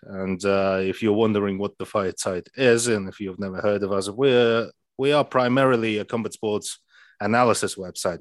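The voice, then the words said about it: Goofy-sounding accent. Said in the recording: “who is this guy with the goofy accent?”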